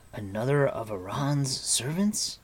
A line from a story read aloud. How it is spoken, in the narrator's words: asked Terran, his voice betraying his anxiety